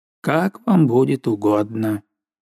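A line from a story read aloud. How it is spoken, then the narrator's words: Dry. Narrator (Russian): Я сказал сухо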